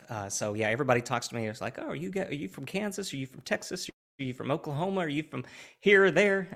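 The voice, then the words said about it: Southern Oklahoma-type American accent. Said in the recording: “From ... accent, I assume that you are not in the north ... I assume from ... accent that he's just not from the north ... originally I started out in Oklahoma ... could not get rid of the accent to save my life”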